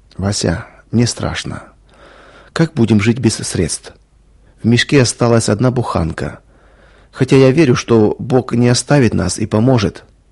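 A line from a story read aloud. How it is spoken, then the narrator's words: Quiet speech. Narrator (Russian): негромко сказала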